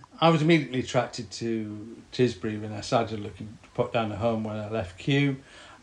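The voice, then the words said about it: Northern English West Yorkshire accent. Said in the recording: “from your accent, you're obviously from the north ... I was brought up in West Yorkshire”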